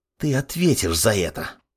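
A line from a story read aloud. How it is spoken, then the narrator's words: Boy hissing. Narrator (Russian): Прошипел парнишка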